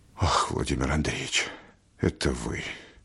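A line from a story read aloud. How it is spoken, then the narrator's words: Very quiet whisper. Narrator (Russian): отвечал архипошепту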